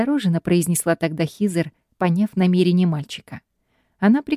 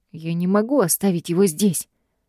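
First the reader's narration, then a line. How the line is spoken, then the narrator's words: Hoarse, anguished. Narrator (Russian): прохрипел Гай, не вынося даже мысли о том, чтобы просто развернуться и оставить бедного малыша умирать на холоде без еды и воды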